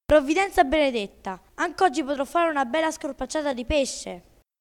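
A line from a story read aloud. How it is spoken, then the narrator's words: Joyful shout. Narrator (Italian): il pescatore gridò tutto contento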